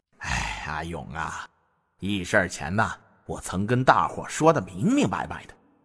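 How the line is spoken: Deep, grave voice. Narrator (Chinese): 沉声道

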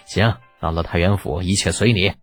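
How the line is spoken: Laughing, joking. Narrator (Chinese): 张孙冲笑着打哈哈

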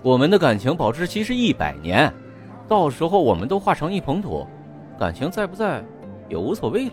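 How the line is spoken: Flat, indifferent. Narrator (Chinese): 霍雨桐淡淡的说

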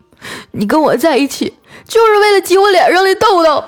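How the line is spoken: Tearful voice. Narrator (Chinese): 那男的带着哭腔接着说

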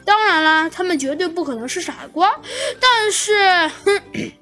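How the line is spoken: Wry, helpless laugh. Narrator (Chinese): 那猴子警长显得有些无奈的笑了笑，说道

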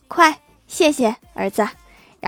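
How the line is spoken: Smiling woman. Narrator (Chinese): 那个妇女笑着对那个小男孩说

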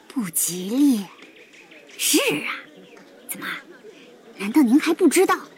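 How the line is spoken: Hushed, surprised whisper. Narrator (Chinese): 男人惊讶的表情，压低了声音，悄悄

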